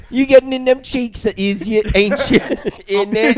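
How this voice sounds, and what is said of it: Put-on British accent. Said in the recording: “I like a British accent ... do the accent back”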